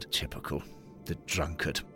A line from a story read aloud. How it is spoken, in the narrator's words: Henry Grover rolled his eyes and muttered